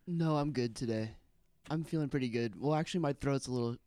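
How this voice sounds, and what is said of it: Sounds sick, rough throat. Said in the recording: “You sound sick.”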